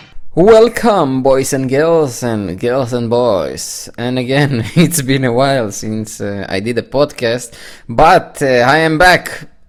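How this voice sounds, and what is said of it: English with a Jewish accent. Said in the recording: “the sexy Jewish accent”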